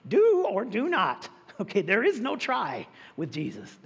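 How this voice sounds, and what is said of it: Yoda impression. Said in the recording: “that was Yoda, by the way. I know I'm a little hoarse, but that was Yoda.”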